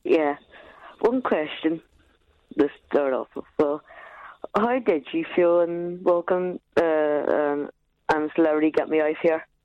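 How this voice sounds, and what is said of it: Northern Irish accent. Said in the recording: “Another caller with an Irish accent ... Northern ... Irish”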